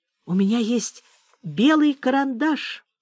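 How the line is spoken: Timid. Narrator (Russian): робко сказала Аня

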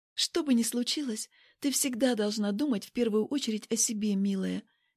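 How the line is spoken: Secretive whisper. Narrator (Russian): говорю шепотом, чтобы нас никто не мог услышать

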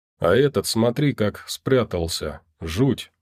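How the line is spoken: Quiet. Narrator (Russian): негромко сказал Яков

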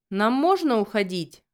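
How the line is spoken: Angry question. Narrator (Russian): зло спросил Джоселин

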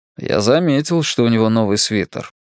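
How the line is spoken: Dry reply. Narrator (Russian): сухо отозвался Луис

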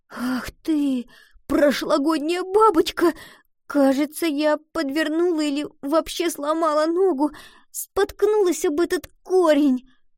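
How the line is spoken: Sobbing complaint. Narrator (Russian): Пожаловалась Гретхен, снова всхлипнув

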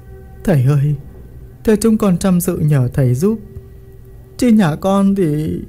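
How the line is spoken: Tearful pleading. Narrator (Vietnamese): bà mếu máo cầu cứu

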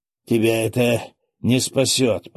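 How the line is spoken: Horrified moan. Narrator (Russian): простонал, с ужасом

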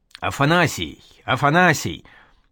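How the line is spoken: Loud repetition. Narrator (Russian): стал громко твердить Колодин

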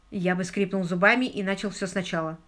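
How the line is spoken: Plain. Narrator (Russian): ответил Паркер

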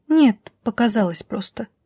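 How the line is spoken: Whisper. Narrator (Russian): прошептала та

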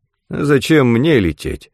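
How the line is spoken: Grumbling. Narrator (Russian): пробурчал Брутча

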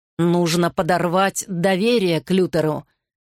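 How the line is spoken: Growled. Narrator (Russian): прорычал Гарри

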